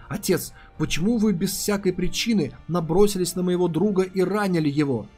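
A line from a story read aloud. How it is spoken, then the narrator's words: Frowning exclamation. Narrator (Russian): Нахмурившись, она воскликнула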